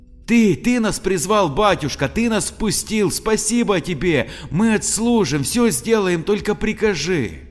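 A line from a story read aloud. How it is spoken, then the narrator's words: Joyful group shout. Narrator (Russian): закричали радостно полицейские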